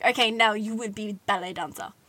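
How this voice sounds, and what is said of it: Put-on Russian accent. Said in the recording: “She wasn't Russian. I don't know why. I don't know why I did an accent.”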